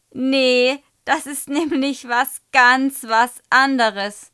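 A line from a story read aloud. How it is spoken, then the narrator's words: Shouting with laughter. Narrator (German): ruft Michi und schmeißt sich vor Lachen über den Tisch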